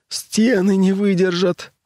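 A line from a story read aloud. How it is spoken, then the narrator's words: Breathless. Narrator (Russian): выдохнул кто-то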